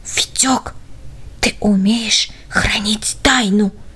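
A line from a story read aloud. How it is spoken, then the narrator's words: Whisper in ear. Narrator (Russian): прошептал он ему в самое ухо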